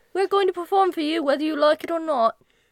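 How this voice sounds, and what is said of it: Bad put-on British accent. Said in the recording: “I have a bad British accent, don't judge me”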